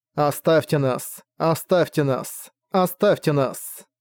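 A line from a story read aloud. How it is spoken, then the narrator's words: Soft, melodic serpent voice. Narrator (Russian): Голос змея был мягок и мелодичен, никакого шипения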